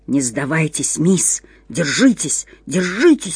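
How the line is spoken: Whispering voice. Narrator (Russian): шептал какой-то голос

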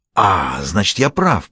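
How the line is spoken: Hiss. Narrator (Russian): прошипел русский

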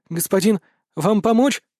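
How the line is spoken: Frightened question. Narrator (Russian): испуганно поинтересовался продавец

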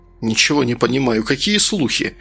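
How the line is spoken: Indignant question. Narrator (Russian): спросил Сергей возмущенным тоном

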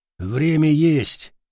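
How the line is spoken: Grumbling mutter. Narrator (Russian): буркнул Штыпсель

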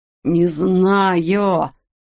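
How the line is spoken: Rasping. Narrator (Russian): прохрипел Уэтик

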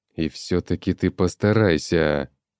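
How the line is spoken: Hiss. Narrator (Russian): прошипел Большелобый

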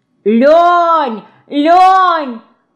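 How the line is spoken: Shouted. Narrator (Russian): крикнула Динка

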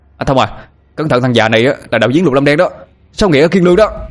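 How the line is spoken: Shouting. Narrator (Vietnamese): Tôi hét lên

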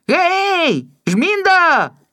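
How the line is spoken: Shouted. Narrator (Belarusian): крыкнуў мне Жора

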